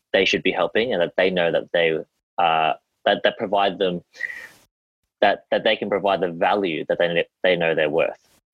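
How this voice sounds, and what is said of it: Australian accent. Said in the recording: “As you can tell by my accent, I'm Australian”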